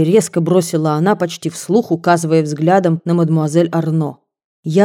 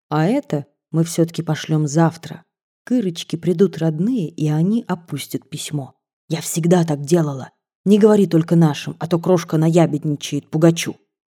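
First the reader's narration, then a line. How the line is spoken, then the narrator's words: Very quiet. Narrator (Russian): И совсем тихо добавила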